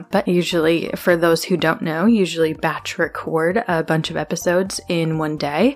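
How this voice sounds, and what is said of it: Congested, slightly off voice. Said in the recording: “you sound different ... my allergies are acting up or my voice is a little bit wonky ... my nose was started getting really stuffy and my throat was tickly”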